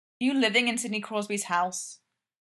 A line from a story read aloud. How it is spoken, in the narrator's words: Sergei says